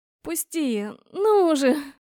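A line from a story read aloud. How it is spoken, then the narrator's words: Pleading. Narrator (Russian): Взмолилась я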